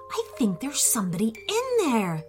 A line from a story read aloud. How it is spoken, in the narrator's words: whispered Jojo